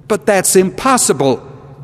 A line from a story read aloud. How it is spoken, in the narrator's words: exclaimed the elder